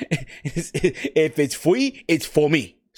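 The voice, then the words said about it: Bad put-on English accent. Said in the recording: “he would always say it in a, in a shitty English accent”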